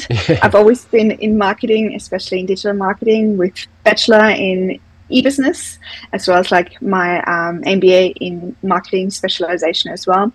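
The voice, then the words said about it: Austrian accent. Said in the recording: “I'm originally from Austria, as you can maybe hear from the accent.”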